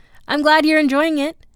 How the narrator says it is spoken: said C, brightly

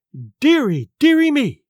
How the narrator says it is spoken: cried my mother

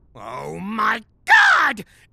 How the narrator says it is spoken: Gary shouted

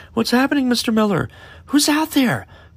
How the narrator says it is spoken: one of the students cried out

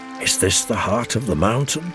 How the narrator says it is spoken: whispered Laura softly

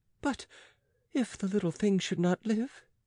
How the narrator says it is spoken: queried the nurse timidly

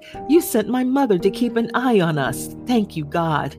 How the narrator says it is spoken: I laughed and said to God

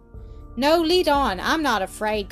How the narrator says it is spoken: cried Nell

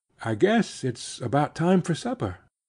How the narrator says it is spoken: Mattie said, with a shy laugh

